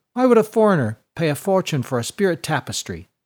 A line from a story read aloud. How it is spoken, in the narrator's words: asked Burkadai